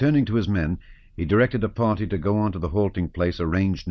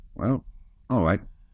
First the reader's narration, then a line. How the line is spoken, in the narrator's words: said Denisov